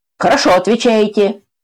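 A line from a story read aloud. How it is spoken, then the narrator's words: Loud, emboldened. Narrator (Russian): Громко поймал кураж командующий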